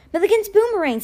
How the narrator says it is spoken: Sticky said, his voice tinged with hope

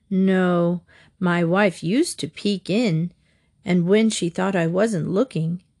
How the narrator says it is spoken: he chuckled

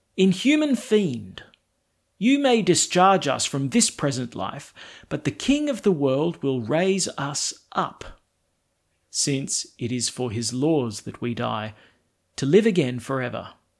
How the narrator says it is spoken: With his last breath the second brother exclaimed

